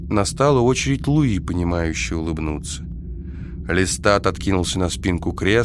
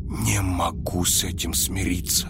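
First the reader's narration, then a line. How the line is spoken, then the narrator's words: Whisper. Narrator (Russian): прошептал я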